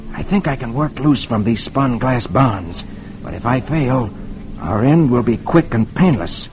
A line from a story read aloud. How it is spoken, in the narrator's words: Flash whispers to Dale